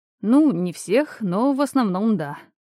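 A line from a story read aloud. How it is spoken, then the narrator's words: Sighing. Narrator (Russian): вздохнул Асклепий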